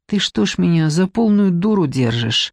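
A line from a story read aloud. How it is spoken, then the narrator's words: Through gritted teeth. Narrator (Russian): процедила Надежда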